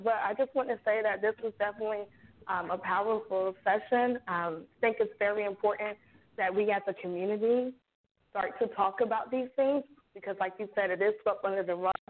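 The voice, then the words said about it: Strained, failing voice. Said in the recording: “my voice is going out”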